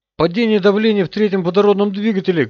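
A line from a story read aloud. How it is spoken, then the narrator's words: Shout. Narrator (Russian): крикнул Роман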